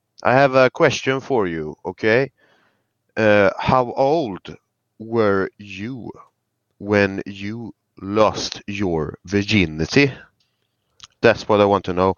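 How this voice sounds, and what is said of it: Scandinavian-accented English, slightly British. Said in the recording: “From Sweden, little British accent ... He actually sounded more Danish than Swedish”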